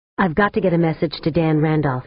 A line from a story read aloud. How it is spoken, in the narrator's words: said